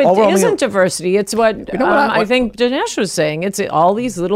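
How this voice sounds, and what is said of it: Usual voice. Nothing is said of it.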